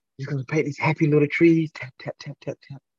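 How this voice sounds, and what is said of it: Bob Ross impression. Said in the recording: “impersonate Bob Ross, the old, the white guy with the afro”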